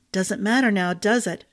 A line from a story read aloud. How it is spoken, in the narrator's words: she muttered